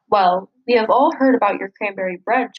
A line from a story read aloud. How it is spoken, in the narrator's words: chuckled Mr